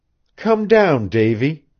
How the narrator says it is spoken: pleaded Janet

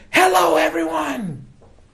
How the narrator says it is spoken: it was Oprah, screaming

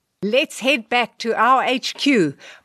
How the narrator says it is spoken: barked the victorious DCR Lou

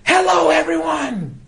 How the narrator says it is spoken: Oprah, arms flung high, screaming

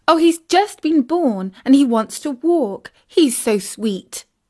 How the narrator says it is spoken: exclaimed Isis

